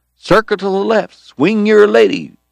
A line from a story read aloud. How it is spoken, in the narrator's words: Eddie was hollering